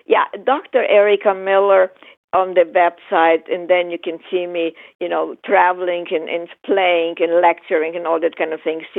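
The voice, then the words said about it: Speaks English with a foreign accent. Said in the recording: “listen to my accented voice ... Listen to my accent voice”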